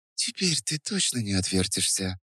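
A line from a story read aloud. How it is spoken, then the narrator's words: Whispered. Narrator (Russian): прошептала она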